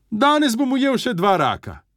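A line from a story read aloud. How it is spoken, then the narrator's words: Said loudly. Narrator (Slovenian): je glasno rekel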